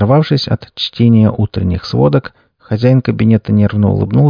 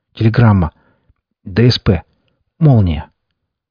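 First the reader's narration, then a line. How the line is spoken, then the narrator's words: Breathless, stammering, excited. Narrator (Russian): Чуть запыхавшись, немного запинаясь от волнения, он несколько взволнованно произнес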